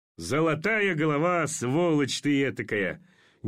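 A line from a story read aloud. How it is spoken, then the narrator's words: Forced vain laughter. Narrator (Russian): Неестественно и самолюбиво засмеялся Орлов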